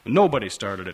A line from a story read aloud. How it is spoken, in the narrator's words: Frank says firmly